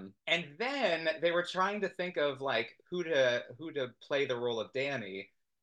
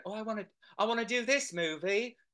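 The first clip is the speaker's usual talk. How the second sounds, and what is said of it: Poor imitation Australian accent. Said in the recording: “That's not Australian. I do a horrible Australian accent”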